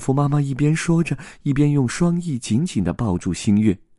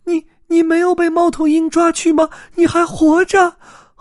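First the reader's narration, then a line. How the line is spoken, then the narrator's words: Crying out. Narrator (Chinese): 星月哭喊着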